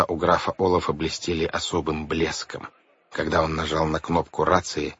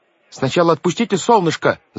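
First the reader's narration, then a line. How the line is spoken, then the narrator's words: Shouting. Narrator (Russian): закричал Клаус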